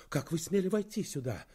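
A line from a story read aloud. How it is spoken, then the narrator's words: Indignant exclamation. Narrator (Russian): воскликнула она с возмущением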